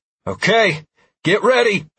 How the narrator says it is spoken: I shouted

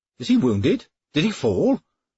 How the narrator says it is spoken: asked Kilbert, anxiously

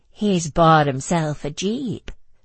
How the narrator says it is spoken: said Andrea in her Texan drawl

